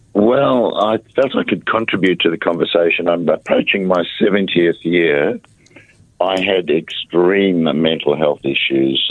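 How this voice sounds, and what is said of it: Hoarse, sore-throated voice. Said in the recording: “Excuse my voice, please. I've got a bit of a sore throat at the moment.”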